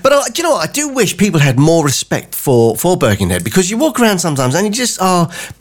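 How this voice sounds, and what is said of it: Southern English accent. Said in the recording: “I'm a former southerner. You can probably tell from the accent that I'm not from around here.”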